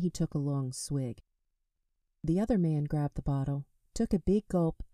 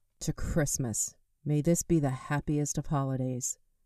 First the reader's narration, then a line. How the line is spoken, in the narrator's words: he toasted sarcastically